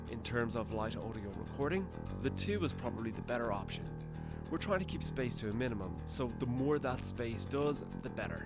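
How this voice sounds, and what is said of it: Irish accent. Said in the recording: “my charming Irish accent”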